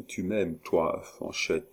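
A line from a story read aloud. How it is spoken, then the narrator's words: Murmur. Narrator (French): murmura-t-il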